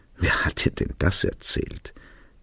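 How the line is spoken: Giggling question. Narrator (German): fragte er kichernd

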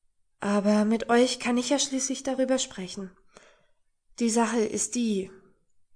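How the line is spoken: Hesitant continuation. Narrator (German): fuhr immer noch etwas zögernd fort

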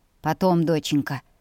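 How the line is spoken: Gentle fatherly rebuke. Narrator (Russian): мягко приструнил папа

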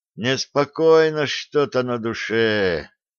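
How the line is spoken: Heavy sigh. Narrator (Russian): тяжко вздохнул Сплинтер

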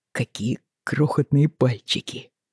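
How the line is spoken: Breathless awed exhale. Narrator (Russian): выдохнул один из братьев

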